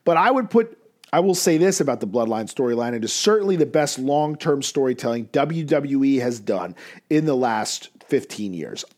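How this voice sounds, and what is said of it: Hoarse, partly lost voice. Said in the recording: “As you can hear, my voice is a little bit gone. I've been under the weather”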